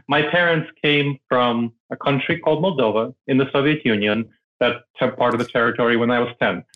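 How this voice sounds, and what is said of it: Non-American foreign accent. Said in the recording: “might hear that I have an accent ... people still hear I have an accent, yes ... I don't have a mainstream American accent”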